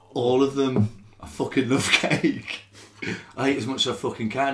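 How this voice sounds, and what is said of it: Gentle Scouse accent. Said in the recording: “I'm a Scouser ... I'm a gentle Scouse. I've got a bit of a gentle Scouse sound. ... You do sound slightly gentle.”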